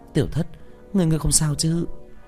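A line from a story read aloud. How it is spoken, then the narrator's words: Soft relieved breath. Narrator (Vietnamese): thở nhẹ khẽ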